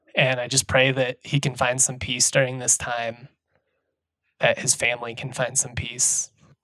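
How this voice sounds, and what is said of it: Emotional, strained, fading voice. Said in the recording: “I'm losing my voice and I'm getting emotional now”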